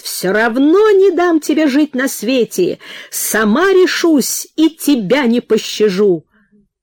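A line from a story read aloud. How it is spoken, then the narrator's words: Shouting after someone. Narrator (Russian): И кричала Анфиса вслед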